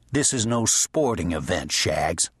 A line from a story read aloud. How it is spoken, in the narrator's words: said harshly